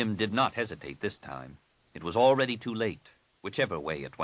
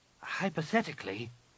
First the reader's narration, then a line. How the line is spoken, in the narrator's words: Nenyim said hesitantly